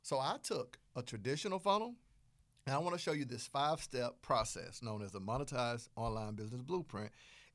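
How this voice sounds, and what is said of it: Southern American twang. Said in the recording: “my Southern accent ... you can hear my Southern twang on it”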